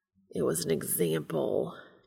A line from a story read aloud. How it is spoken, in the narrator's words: Castiel growls